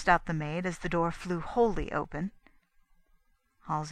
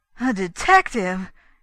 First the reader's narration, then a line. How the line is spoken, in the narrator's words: he exclaimed